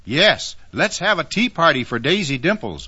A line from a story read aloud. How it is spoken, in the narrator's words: all the animals shouted